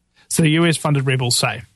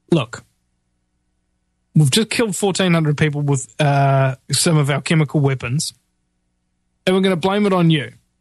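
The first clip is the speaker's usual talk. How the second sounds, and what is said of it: Bad put-on Arabic accent. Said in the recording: “a bad American version of an Arabic accent”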